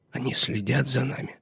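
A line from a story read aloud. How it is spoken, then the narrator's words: Whisper. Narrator (Russian): шепнул он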